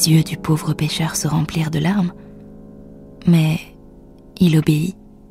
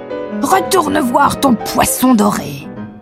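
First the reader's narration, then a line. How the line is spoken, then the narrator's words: Screaming. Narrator (French): hurla-t-elle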